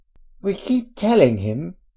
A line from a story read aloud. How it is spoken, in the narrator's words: Ginny exclaimed in exasperation